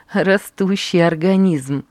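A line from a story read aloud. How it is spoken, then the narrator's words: Laughing speech. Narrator (Russian): говорила она, смеясь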